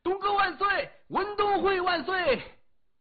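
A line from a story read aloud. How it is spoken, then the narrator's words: Joyful crowd screaming. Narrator (Chinese): 其他人也跟着尖叫起来，众人心里的喜悦无法言表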